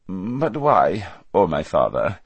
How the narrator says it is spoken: said the prince, this time in a much more respectful voice

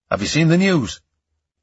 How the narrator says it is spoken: His tone of voice scared me

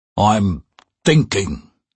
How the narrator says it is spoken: he rumbled

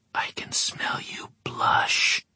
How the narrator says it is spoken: she whispered

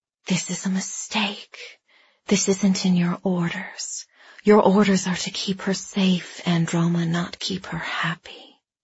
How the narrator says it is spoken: that little voice whispered

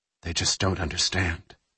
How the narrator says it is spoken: Jack said quietly

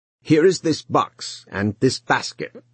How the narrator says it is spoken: he said gruffly

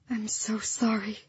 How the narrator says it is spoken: Lyra whispered

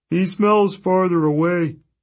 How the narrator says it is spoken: the cyclops moaned to the dog

